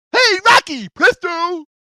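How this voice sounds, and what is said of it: Cartoon character voice imitation. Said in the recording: “That's a pretty good imitation there, man.”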